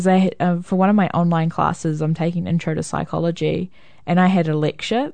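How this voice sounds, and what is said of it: New Zealand accent. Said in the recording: “What's your accent? ... I'm from New Zealand.”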